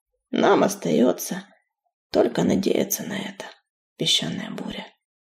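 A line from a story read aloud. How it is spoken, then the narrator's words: Barely audible. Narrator (Russian): еле слышно произнес он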